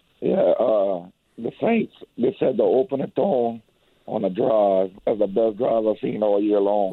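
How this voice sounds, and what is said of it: Raspy, slightly hoarse voice. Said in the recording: “you sound a little under the weather like me a little bit. Your throat's a little raspy.”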